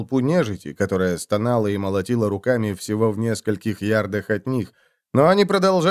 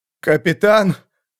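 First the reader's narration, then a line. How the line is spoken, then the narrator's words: Trembling question. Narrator (Russian): дрожащим голосом спросил он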